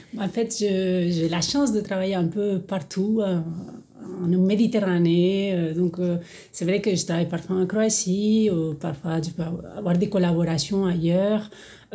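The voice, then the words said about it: Spanish accent speaking French. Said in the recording (French): “votre très joli accent nous révèle que vous êtes vraiment méditerranéenne ... je viens de l'Espagne, mais vraiment du côté atlantique, donc la Galice”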